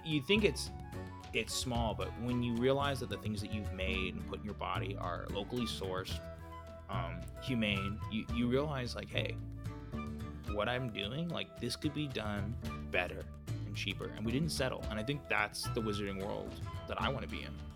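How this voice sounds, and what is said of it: Smug, douchey character voice. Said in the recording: “in the perfectly douchey tone of voice”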